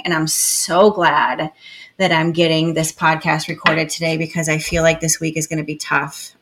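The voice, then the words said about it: Voice altered by sore throat. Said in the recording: “I woke up this morning with a sore throat. So if my voice sounds kind of not the same”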